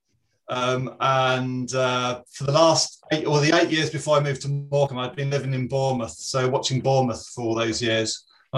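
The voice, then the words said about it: East London accent. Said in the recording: “you may probably pick it up from my accent ... I'm actually originally from East London”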